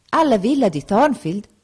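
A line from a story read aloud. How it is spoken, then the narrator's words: Pastor exclaiming. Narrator (Italian): esclamò il pastore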